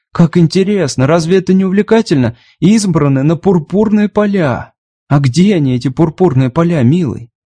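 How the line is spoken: Cheerful chirping. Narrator (Russian): Роуз радостно защебетала

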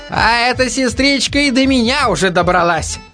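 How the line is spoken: Indignant remark. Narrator (Russian): Возмущенно бросил Инетович

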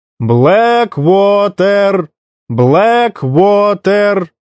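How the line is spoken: Shouting. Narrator (Russian): закричал дежурный по станции

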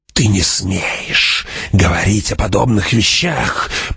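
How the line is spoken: Old woman hissing. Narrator (Russian): прошипела старуха

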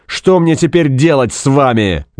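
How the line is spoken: Loud bark. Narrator (Russian): гаркнул он

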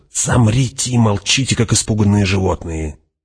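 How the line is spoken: Hissed. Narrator (Russian): прошипел Фриман

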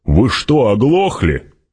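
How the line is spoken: Barked. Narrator (Russian): рявкнул

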